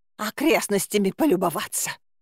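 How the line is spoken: Hoarse rasp. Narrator (Russian): прохрипела я

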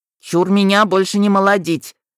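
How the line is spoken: Shouted. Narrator (Russian): закричал Нитхёк

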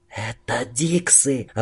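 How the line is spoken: Doomed whisper. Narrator (Russian): обреченно прошептала Дина

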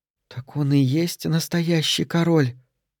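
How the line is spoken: Whispered female question. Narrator (Russian): шепотом спросила Джилли у подруги

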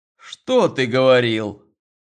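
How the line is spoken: Angry objection. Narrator (Russian): Сердито возражал Роман

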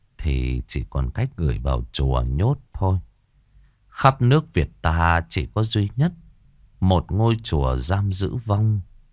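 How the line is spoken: Old monk's sigh. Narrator (Vietnamese): Sư cụ thở dài

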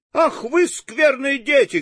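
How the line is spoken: Angry woman shouting. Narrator (Russian): кричала разгневанная женщина

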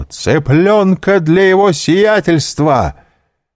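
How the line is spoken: Shouted at full voice. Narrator (Russian): Пипино крикнул во все горло

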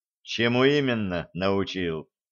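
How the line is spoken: Gloomy question. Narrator (Russian): мрачно спросил Чараныш

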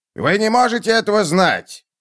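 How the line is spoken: Objecting. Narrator (Russian): возразил генерал Халверсон

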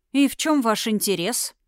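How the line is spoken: Scoffing grunt. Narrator (Russian): хмыкнул

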